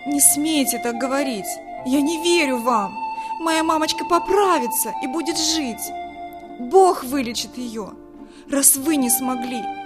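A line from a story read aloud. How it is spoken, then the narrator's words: Shouting. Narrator (Russian): закричала Вика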